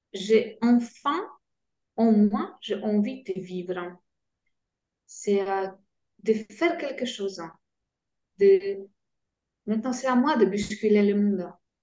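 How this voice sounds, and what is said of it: French spoken with a Polish accent. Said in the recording (French): “polonaise, en France ... avec mon accent.”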